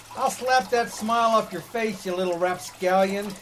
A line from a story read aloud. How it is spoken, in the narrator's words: He yelled